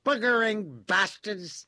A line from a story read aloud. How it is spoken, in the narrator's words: with a yell of